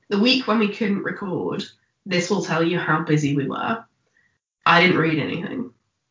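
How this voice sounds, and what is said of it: Rough, unwell-sounding croaky voice. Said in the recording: “I sound like a demon is being exorcised from me. Because I've been unwell”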